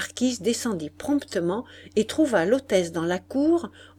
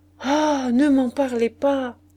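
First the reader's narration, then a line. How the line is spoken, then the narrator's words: Exclaimed. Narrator (French): s'écria la maîtresse de l'hôtel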